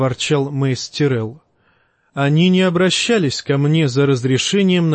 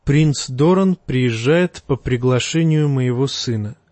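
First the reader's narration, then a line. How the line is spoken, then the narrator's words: Calm reply. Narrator (Russian): спокойно ответил лорд Тайвин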